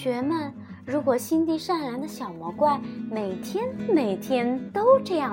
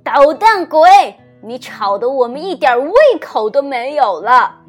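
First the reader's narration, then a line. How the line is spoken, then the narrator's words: Loud scolding. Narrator (Chinese): 爸爸妈妈受不了了，就大声的训斥他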